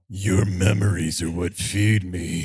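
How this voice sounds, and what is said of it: Horror villain voice, lips not moving. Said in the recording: “my fun Freddy Krueger impression. ... I had to try to make my lips not move in order to say it appropriately.”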